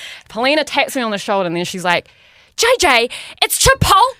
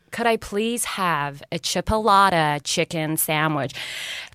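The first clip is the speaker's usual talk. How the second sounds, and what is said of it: Put-on American accent. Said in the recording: “I'm going to have to do an American accent because he doesn't understand me.”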